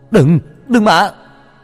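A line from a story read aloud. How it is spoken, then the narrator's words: Screaming. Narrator (Vietnamese): Tôi hét lên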